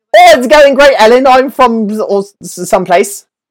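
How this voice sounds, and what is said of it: Put-on accent. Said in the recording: “My accents are all over the map today.”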